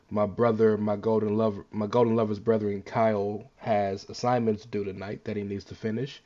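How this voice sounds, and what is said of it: Voice affected by illness. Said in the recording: “I'm a little bit under the weather, so I apologize for my voice.”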